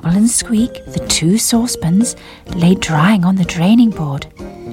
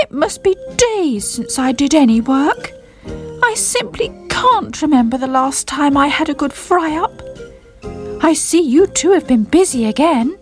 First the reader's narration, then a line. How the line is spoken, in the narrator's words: he called out